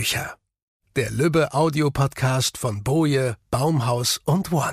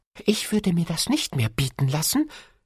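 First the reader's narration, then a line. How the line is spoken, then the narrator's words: Hissing. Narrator (German): zischte der Osterhase dem Christkind zu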